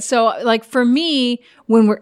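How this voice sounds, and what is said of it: Yelling, loud voice. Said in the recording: “I'm yelling, sorry.”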